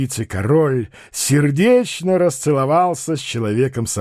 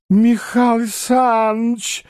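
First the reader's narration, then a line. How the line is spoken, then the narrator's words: Exclamation of sudden realization. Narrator (Russian): воскликнул прозревший бухгалтер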